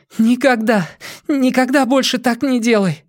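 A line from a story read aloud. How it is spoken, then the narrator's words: Sobbing. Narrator (Russian): всхлипнула Зеник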